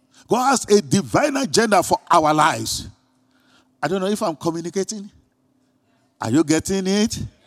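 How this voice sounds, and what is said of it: Non-American accent from another continent. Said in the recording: “my pronunciation is failing me ... accent from another continent”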